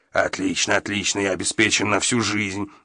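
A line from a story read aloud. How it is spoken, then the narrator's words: Muttering under breath. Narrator (Russian): бормотал себе под нос Гатсон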